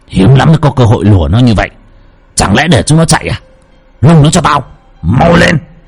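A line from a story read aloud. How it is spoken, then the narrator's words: Harsh, gritted voice. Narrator (Vietnamese): Đại Trọng gằn giọng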